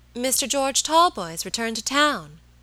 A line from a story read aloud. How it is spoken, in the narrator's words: exclaimed my lady